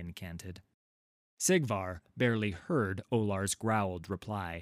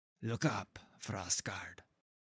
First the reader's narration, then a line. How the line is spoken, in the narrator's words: the priest said, quietly